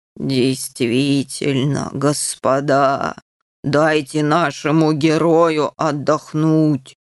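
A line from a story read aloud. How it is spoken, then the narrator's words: Soft booming. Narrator (Russian): мягко прогудел сэр Нюф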